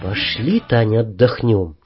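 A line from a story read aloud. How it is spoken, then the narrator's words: Whisper. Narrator (Russian): шепнул я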